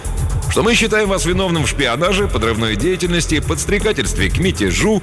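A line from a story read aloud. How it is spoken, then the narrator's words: Cheerful opening. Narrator (Russian): весело начал сотрудник специального отдела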